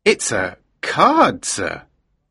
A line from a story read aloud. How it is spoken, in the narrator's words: the man said slowly